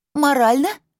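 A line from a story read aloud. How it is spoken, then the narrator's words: Squeak muffled by barking. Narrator (Russian): пискнула из-за угла, прикрываемая лаем, прекрасная вдова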